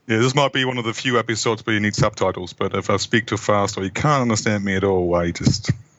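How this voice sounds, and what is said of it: Mixed German, Australian, New Zealand accent. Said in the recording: “He's got one hell of an accent. It's part German, part Aussie, part Kiwi. Very puzzling.”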